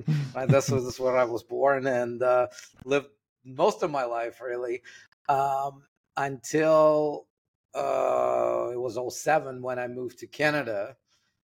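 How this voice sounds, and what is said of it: Russian accent in English. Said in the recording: “you can probably hear it in my accent when I talk. I'm Russian.”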